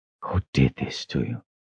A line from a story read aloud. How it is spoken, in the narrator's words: whispered